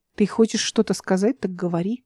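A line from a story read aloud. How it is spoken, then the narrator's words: Soft, calm, melodic. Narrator (Russian): произнесла мягко и спокойно, голос стал певучим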